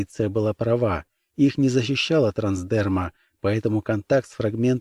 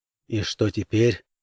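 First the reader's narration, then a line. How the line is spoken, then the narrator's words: Muttered. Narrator (Russian): буркнул Хэм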